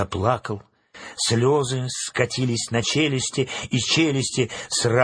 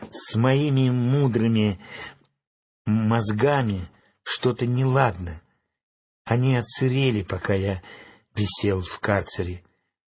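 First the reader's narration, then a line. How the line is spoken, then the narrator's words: Sad whisper. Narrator (Russian): Страшила грустно прошептал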